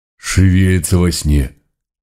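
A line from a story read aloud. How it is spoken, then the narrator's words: Breathed out. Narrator (Russian): выдохнул Митька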